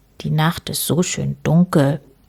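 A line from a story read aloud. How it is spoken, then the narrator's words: Murmured. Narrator (German): murmelte Herr Schwarz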